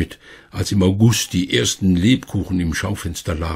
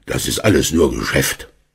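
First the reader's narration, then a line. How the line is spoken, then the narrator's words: Grumbled. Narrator (German): Herr Schmidt brummte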